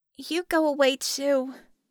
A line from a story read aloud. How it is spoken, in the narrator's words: Penny groaned